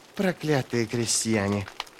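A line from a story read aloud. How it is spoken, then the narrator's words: Hissed. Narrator (Russian): прошипел Сульт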